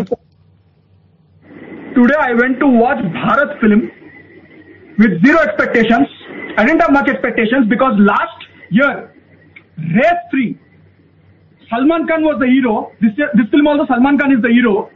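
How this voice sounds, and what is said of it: Heavy Indian-sounding accent. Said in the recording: “that's a great accent. Are we saying Indian? Is that, it felt a little bit heavier than Indian, didn't it? ... It's a great accent. Superb accent.”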